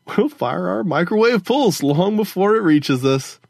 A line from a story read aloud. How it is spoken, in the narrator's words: Gogo Fernanda laughed